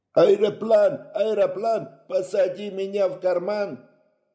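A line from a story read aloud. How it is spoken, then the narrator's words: Ecstatic yelling in chorus. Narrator (Russian): Восторженно вопил он вместе со всеми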